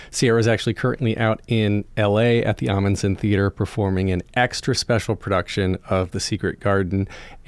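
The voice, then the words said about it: Slightly husky voice. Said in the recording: “hear in my voice right now that it's a little husky. I'm getting over a cold”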